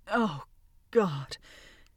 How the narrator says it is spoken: he moaned, his eyes closed

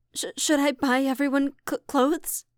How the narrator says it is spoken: Sora stammered

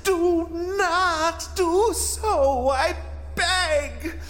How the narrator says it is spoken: cried the ghost

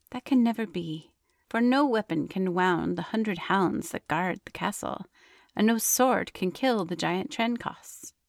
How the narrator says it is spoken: sighed the princess

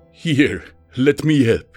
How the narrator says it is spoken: Splinter chuckled

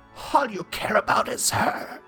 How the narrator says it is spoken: Chrysalis spat out

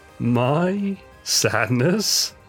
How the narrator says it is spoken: Sephiroth cackled, engrossed in his study of the corpse in the tank, carelessly ignorant of the approaching teen

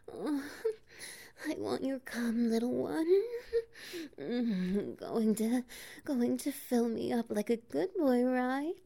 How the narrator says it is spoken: pants

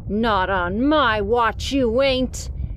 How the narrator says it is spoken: he growled

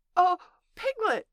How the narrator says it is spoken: said Pooh excitedly

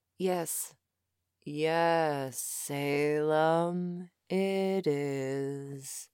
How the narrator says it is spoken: Dave said in his usual slow voice

